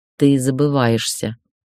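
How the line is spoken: Through clenched teeth. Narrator (Russian): процедила она, когда обрела дар речи

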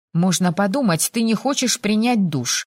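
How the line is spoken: Snorting. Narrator (Russian): Фыркнула

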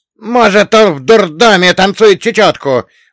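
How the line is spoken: Roaring. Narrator (Russian): взревел Салли

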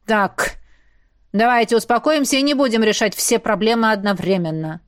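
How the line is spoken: Commanding bark. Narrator (Russian): рявкнул Хордон, включив командира

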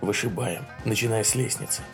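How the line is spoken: Whispered. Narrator (Russian): он шепнул Джеку

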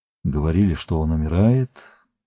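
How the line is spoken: Warrior's mumble. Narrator (Russian): пробормотал воин

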